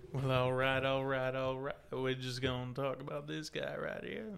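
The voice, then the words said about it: Imitates another person's voice. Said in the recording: “do your best impression ... actually doing a good job. ... I'm a little bit of that Matthew McConaughey.”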